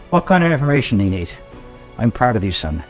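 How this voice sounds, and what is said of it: Character voice with Irish accent. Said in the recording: “It's got an Irish accent for some reason.”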